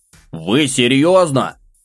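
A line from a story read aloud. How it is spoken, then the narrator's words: Loud shout. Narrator (Russian): громко крикнул я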